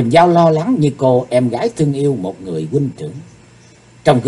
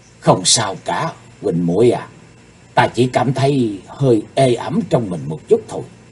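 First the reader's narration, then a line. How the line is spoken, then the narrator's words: Soft reply. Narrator (Vietnamese): Chí Tôn khe khẽ đáp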